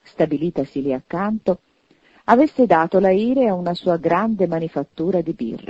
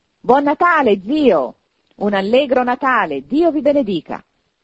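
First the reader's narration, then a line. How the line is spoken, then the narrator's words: Joyful shout. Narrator (Italian): gridò una voce gioconda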